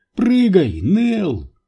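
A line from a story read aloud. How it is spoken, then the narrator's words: Shrill squeal. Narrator (Russian): взвизгнул Энди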